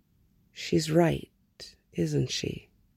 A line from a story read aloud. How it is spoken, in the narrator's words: Clark murmured